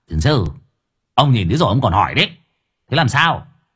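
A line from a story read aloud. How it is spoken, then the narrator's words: Snapping irritably. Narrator (Vietnamese): Cậu Cẩn gắt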